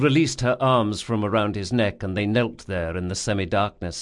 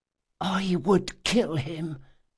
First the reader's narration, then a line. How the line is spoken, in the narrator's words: she whispered